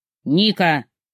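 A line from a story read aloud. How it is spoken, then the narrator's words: Growled. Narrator (Russian): рыкнул Мурат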